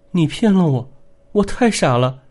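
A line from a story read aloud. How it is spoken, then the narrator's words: Woman's tearful voice. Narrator (Chinese): 一会儿是个女人带着哭腔说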